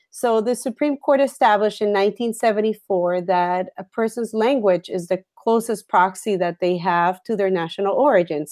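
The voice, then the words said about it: Slight Puerto Rican accent. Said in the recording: “when they hear me speak, they notice a slight accent, and it tells them that I probably wasn't, born in Boston, or my parents didn't come in the Mayflower. I'm from Puerto Rico.”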